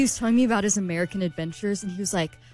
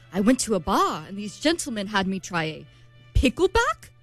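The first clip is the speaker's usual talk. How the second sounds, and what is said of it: Poor put-on British accent. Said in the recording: “You have a terrible British accent... That is about the worst British accent I've ever heard... It's so bad.”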